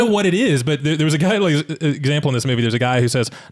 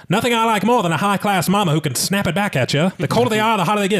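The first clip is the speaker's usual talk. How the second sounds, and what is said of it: 1930s radio announcer voice. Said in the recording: “I love that 1930s like radio announcer voice... I wish I could use this voice all the time”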